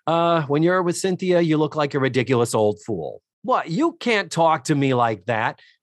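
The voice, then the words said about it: Partial Boston accent. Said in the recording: “I'm doing a partial Boston accent ... that accent is more Bostonian than New Yorkian”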